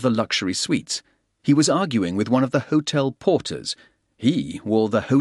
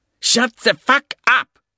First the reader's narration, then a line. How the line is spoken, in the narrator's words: spat